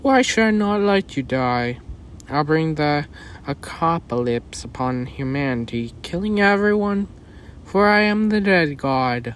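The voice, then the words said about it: Deep menacing character voice. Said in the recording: “It's that deep voice again.”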